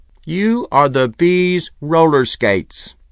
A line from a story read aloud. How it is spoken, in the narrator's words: said Archibald Mulliner in a clear, firm voice